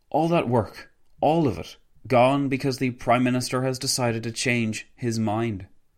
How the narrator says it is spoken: Wilson sighed loudly before exclaiming

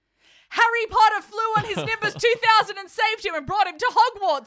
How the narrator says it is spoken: I screamed

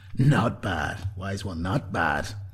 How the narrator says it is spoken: he grunted

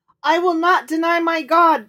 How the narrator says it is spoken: cried the boy

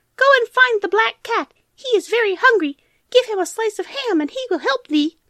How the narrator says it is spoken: gratefully squeaked the mice

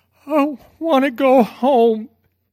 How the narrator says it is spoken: DJ cried

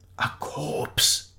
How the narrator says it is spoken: whispered

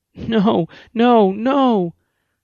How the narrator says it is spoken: she wailed over and over again

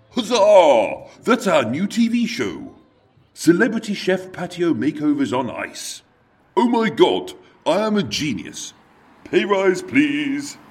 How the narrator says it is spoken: loudly exclaim

